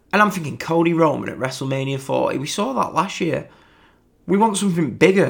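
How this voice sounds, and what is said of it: British accent. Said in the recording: “obviously you can tell by my accent, I'm from the UK”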